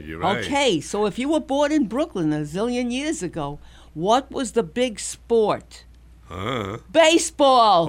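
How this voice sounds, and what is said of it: Brooklyn accent. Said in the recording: “A Brooklyn kid. I was born, you didn't know that from my accent, right?”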